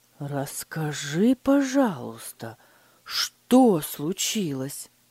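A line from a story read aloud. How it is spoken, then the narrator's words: Gentle, forced calm. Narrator (Russian): мягко спросил Фридрих, стараясь сохранить спокойствие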